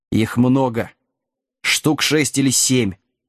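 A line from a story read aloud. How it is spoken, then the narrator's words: Growling. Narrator (Russian): зарычал Вилкинс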